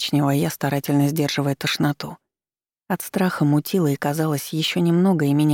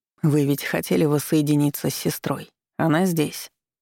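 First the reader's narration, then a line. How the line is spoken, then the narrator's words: Light, then cold. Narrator (Russian): легко ответил Марк Анатольевич и холодно добавил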